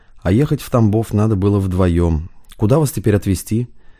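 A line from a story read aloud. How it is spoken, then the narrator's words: Gentle but reproachful. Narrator (Russian): добавил мягко, но все же с осуждением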